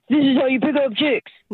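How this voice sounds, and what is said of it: Impression of a YouTube pickup guy. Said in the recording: “some dumb guy on YouTube or TikTok or Insta ... That was a really good impression”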